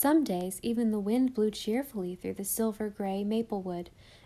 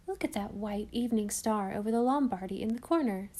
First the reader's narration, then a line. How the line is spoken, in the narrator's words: said Anne